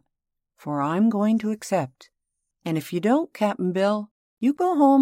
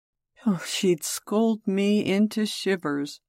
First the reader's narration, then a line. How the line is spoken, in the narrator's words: moaned Cap'n Bill with a shudder